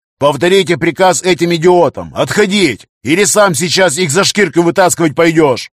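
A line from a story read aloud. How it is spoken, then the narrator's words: Yelling into communicator. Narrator (Russian): Тол заорал коммуникатор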